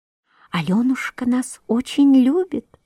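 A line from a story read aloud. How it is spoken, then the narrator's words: Whispering. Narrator (Russian): шептали фиалки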